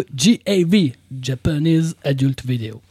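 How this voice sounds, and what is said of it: Exaggerated put-on English accent. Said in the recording (French): “cette espèce d'accent anglais ... anglais avec cet accent-là, j'ai jamais vu ça sur la terre ... Une espèce d'accent anglais”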